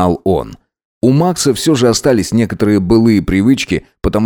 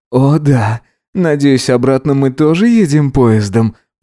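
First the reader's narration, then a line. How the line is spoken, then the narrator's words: Groan. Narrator (Russian): простонал Гидеон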